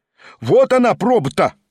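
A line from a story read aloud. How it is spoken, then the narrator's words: Shout. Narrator (Russian): крикнул голос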